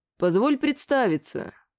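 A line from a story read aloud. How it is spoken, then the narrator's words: Dry. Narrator (Russian): сказал сухо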